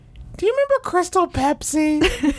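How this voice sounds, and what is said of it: Imitates another person's voice. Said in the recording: “That's exactly what I sound like, ... That's a pretty good impression.”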